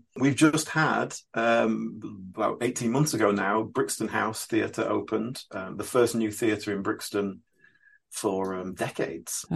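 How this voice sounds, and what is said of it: Yorkshire accent. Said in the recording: “You can probably tell from my accent I'm not a London native ... From Yorkshire originally.”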